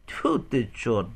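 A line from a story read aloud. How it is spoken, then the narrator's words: Laughing. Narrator (Ukrainian): засміявся Денис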